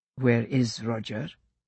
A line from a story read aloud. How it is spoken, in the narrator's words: he asked softly